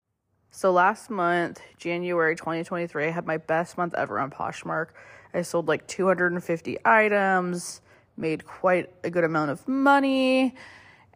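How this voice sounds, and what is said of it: Hoarse, sore-throated voice from a cold. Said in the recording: “if my voice sounds off at all. I am having a bit of a cold, sore throat thing going on, and I think it is affecting my voice a little bit”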